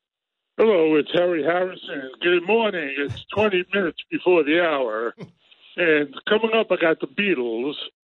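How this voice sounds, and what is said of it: Imitates another person's voice. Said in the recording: “High-pitch ... wants to do Harry Harrison ... he does a Harry Harrison impression”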